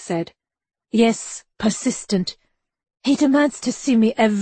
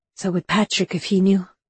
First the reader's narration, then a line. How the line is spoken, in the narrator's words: she added with a quiet sigh